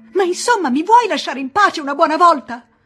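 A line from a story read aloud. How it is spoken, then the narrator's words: Woman shouting. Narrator (Italian): Si mise a gridare anche lei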